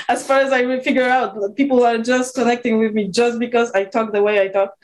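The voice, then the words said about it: Speaker's own noticeable accent. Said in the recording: “my accent. And my accent does a lot of good things to many people”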